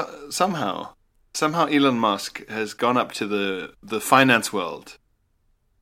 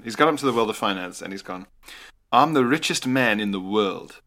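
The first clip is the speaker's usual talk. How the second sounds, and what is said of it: Weird South African accent, Elon Musk. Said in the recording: “I'm never entirely sure what he sounds like, because he's originally South African, but he's lived in America for ages. So I'll just do a weird South African accent.”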